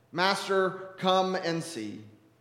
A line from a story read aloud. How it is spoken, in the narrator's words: they said